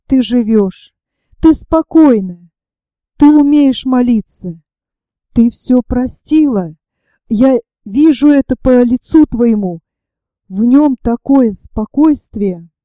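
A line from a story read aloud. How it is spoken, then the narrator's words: Whispered through loud sobs. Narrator (Russian): громко рыдая, прошептала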